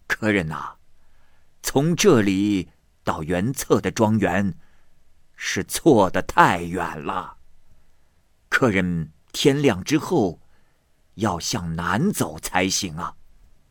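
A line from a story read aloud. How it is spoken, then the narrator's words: Old man, laughing. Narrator (Chinese): 老头笑着说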